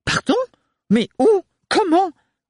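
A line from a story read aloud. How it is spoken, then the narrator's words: Stunned stammering aunt. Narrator (French): bégaya la tante Roselyne abasourdie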